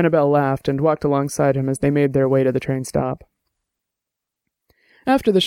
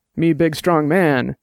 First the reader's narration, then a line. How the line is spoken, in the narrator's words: Dex said, and grunted